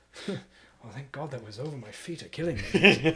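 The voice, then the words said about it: Weary put-on English accent. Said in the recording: “I love a disgruntled Englishman. He's not mad. He's just a little exhausted. ... the accent I just did”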